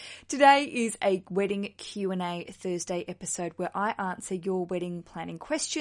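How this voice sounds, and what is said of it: Usual voice. Nothing is said of it.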